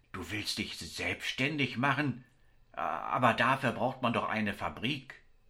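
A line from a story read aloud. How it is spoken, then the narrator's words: Stammering reply. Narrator (German): stammelnd entgegnete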